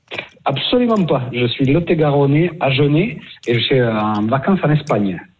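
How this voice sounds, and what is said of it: Regional southwestern French Agen accent. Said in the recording (French): “Tu l'entends, l'accent Agenais?”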